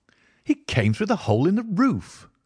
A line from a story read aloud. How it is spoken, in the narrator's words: I cried